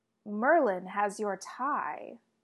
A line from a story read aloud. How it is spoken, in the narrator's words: Morgana drawls from Arthur's office doorway